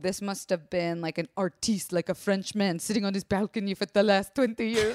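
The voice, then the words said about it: Weird put-on accent. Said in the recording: “That was the most weird accent.”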